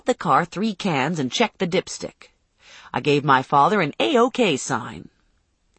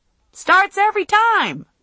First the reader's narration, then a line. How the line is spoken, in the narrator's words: I yelled